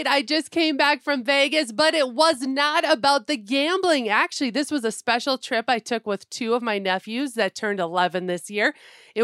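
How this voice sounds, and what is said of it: Raspy, sick-sounding voice. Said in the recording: “Somebody sounds like they got the crud a little bit ... my voice is a little raspy ... or I start coughing”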